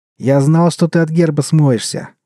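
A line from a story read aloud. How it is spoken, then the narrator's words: Joyful explanation. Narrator (Russian): радостно объяснил Вольный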